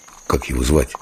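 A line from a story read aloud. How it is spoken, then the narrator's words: Quiet question. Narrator (Russian): Дымов спросил тихо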